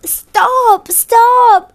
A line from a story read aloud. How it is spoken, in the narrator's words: The little woman screamed